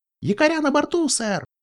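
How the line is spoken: Squeaked. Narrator (Russian): пискнул Пати

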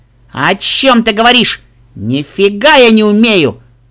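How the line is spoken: Shouted back. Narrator (Russian): Дэш, отчаянно выкрикнула в ответ

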